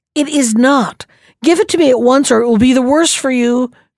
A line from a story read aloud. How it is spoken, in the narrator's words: cried the ogre